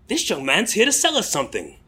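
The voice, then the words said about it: Attempted British accent. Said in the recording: “apologies to anybody who's actually British for my attempt to do the accent.”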